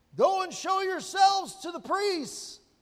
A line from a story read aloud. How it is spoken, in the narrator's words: Jesus shouts back